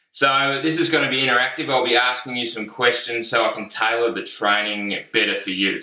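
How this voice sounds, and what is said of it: Australian accent, slow speech. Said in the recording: “I speak slowly enough, so I should be easy to follow and understand. ... my own sort of unique Australian accent.”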